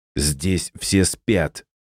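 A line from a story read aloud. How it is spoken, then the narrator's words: Angry hiss. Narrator (Russian): Злобно прошипел олейник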